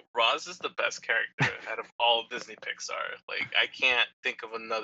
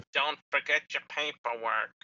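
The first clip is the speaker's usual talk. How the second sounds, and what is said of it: Imitates a cartoon character's voice. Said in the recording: “That's my best impression I could come up with. ... That was a good Sully.”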